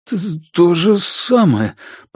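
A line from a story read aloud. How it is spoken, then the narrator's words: Timid babble. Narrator (Russian): пролепетал Дежарден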